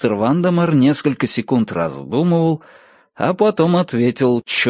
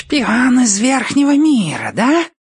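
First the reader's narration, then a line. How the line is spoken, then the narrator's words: Hissed. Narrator (Russian): прошипел предводитель крыситов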